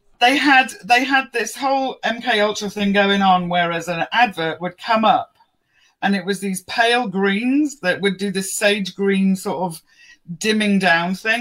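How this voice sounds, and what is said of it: London English accent. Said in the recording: “her accent says I'm from London”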